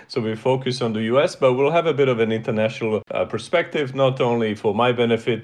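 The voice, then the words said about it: Speaks with a non-American accent. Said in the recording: “when you sense an accent there”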